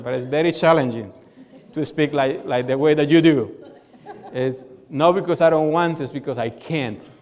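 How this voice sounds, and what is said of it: Strong non-native accent in English. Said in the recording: “my accent, very strong accent”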